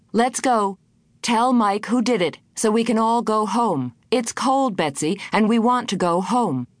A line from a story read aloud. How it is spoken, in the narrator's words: She began to shout